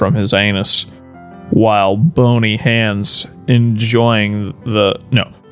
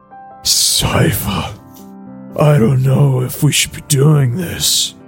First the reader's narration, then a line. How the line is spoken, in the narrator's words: Trevor said between moans of pleasure